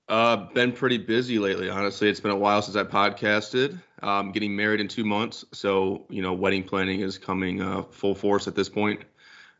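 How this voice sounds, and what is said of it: Voice sounds congested with a cold. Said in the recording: “As you can tell, I have a little bit of a cold”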